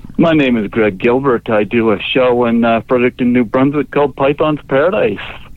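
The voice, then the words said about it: Canadian accent. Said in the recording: “You hear that Canadian accent?”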